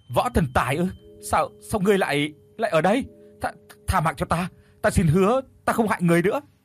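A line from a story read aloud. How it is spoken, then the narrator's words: Terrified stammering. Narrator (Vietnamese): Kim thiên thử lúc này tái mét mặt mũi, lắp bắp nói không ra lời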